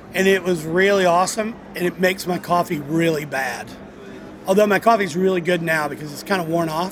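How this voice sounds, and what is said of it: Slightly rough, weird-sounding voice. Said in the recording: “My voice is a little weird today ... my voice is a little verklempt. It's a little rough.”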